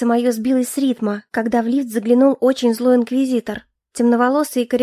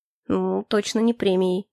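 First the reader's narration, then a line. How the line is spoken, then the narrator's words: Muttered. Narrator (Russian): пробормотал инквизитор по имени Хляйн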